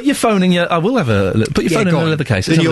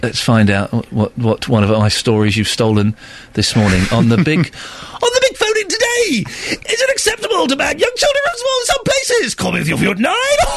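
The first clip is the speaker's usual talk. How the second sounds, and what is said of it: Silly radio-presenter voice. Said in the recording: “doing that silly voice? ... That's your voice. ... your radio voice”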